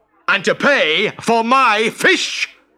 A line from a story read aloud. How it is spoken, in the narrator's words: yelled the fishmonger